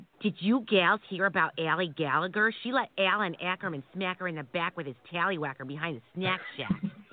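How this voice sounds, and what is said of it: Exaggerated Minnesota accent. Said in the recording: “You're from up by Minnesota, right? You don't have the accent ... Nobody here in Maryland understands a single word you're saying. You should move back to Minnesota.”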